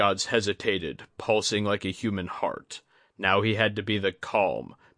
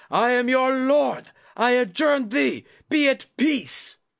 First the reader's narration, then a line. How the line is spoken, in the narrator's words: Junzo shouted